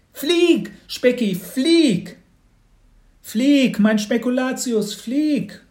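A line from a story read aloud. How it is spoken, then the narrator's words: Called out. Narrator (German): rief auch Mats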